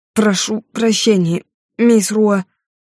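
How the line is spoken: Through gritted teeth. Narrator (Russian): процедил Вудвард

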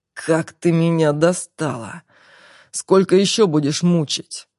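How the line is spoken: Angry hiss in ear. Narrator (Russian): злобно прошипел Марфе на ухо

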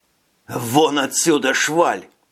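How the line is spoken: Hissing. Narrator (Russian): прошипел шофер

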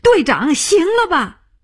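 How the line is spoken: Shouting. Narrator (Chinese): 他叫起来

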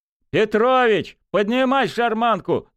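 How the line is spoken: Shouting. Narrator (Russian): закричал Журавлев

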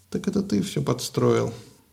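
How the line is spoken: Weary sigh. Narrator (Russian): устало вздохнула Фетида

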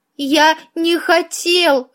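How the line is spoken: Sobbing. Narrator (Russian): рыдал он

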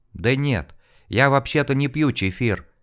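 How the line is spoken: Timid. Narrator (Russian): робко произнес он

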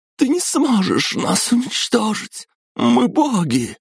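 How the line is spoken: Exclamation. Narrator (Russian): воскликнула она

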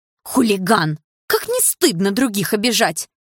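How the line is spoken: Indignant woman's shout. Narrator (Russian): возмущенно выкрикнула какая-то худосочная женщина

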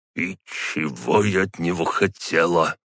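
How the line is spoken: Muttered under breath. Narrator (Russian): пробормотала она себе под нос

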